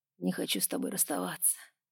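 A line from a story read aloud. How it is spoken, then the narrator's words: Quiet. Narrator (Russian): тихо сказал он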